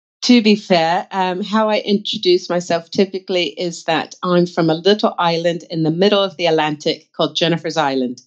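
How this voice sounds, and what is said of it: Hard-to-place American-sounding accent. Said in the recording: “your accent, I'm battling to place ... Is it American?”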